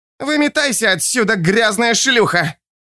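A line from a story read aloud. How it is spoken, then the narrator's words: Hoarse, shrill shout. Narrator (Russian): Слова были выкрикнуты хриплым, визгливым голосом, словно ногтем провели по стеклу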